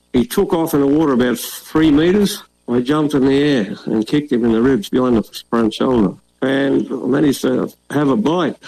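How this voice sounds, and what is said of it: Strong Australian accent. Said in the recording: “for those of you who couldn't understand his accent ... That's Australia.”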